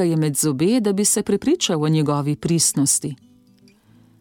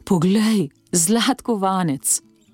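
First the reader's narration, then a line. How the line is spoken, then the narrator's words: Sighing. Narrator (Slovenian): Salvatore je vzdihnil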